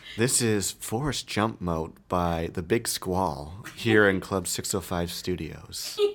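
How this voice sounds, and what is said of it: Radio announcer voice. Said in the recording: “I'm trying to do my best radio voice.”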